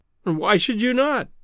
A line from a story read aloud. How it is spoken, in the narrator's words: I cried